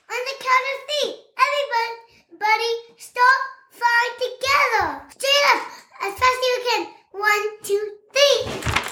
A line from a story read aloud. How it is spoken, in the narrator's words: she called out